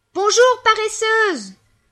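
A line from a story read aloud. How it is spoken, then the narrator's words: Fly yelling. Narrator (French): hurle la mouche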